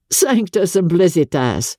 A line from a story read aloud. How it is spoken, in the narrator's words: he exclaimed